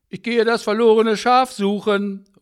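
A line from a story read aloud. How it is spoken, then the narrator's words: Calling out. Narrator (German): ruft er seiner Frau zu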